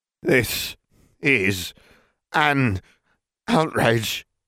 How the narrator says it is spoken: Crouch wheezed

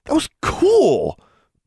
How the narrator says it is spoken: Bonnie exclaimed

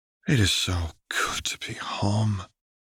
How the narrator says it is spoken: Lux sighed

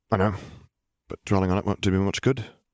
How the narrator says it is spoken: Harry sighed

